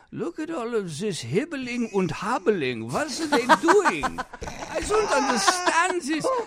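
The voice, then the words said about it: Imitated thick German accent. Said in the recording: “with the thick German accent”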